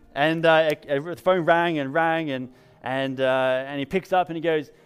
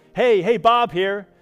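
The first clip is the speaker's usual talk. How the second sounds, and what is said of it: Bad put-on American accent. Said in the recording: “Sorry, in a worst American accent, I'm sorry.”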